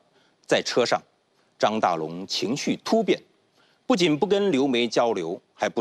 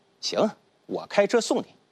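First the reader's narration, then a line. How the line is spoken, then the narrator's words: Apologetic smile. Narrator (Chinese): 张大龙歉意地笑了笑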